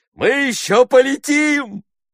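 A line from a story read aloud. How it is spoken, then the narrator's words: Shouted. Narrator (Russian): крикнул он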